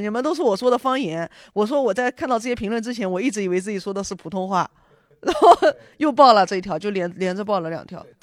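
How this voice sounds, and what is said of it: Strong regional Chinese accent. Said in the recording (Chinese): “这种带一点口音的 ... 你口音不重，我口音重的 ... 你说普通话的腔调是有点奇怪”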